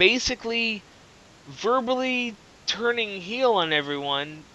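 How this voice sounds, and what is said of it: Usual voice. Nothing is said of it.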